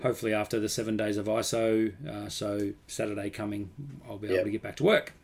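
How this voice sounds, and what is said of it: Sick, strained voice close to cracking. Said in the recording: “I'm sick... I can already feel my voice is going to crack... My voice is going to bail on me”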